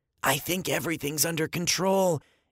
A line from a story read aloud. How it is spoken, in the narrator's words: Andy whispered